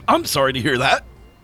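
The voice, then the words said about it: Yelling character voice. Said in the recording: “Why are you yelling? ... he can't help it.”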